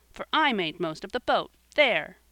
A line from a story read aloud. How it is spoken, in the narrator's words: he cried